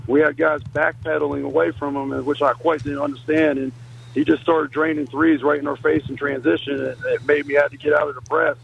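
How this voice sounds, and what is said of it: Hoarse, strained, nearly lost voice. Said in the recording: “As you can tell, I kind of lost my voice in the game tonight.”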